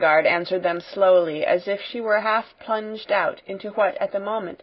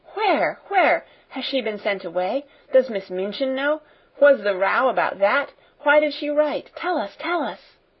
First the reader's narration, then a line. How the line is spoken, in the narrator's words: There was a perfect babel